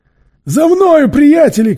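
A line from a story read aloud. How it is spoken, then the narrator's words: Shouting. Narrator (Russian): крикнул Мэри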